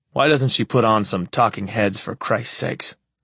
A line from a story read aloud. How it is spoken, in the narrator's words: I complain bitterly